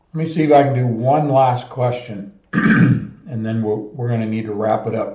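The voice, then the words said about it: Strained, fading voice. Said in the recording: “my voice is really going away”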